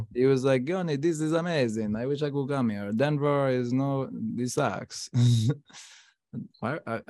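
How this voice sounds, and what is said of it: Put-on Italian accent. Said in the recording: “I feel like I was talking in an Italian accent.”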